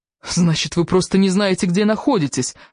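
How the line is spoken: Exclaiming. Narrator (Russian): воскликнул

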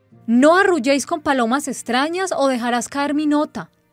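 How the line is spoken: Knight shouting. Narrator (Spanish): le gritó el caballero

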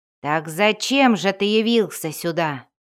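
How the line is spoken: Confident growl. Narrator (Russian): прорычал Бунда, которому вновь вернулась уверенность в собственных силах

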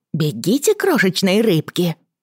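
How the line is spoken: Exclaiming. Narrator (Russian): воскликнула она

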